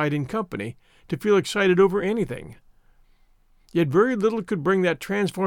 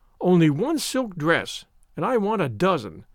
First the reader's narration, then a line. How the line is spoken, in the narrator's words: Avery had said scornfully